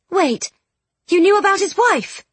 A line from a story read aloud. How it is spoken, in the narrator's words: Charlotte gasped